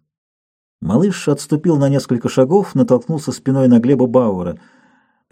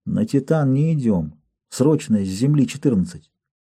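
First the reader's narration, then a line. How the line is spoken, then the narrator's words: Quiet child. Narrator (Russian): Малыш сказал тихо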